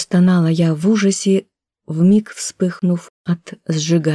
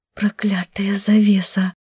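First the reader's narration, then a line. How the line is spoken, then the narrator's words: Hoarse mutter. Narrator (Russian): бормотала я сипло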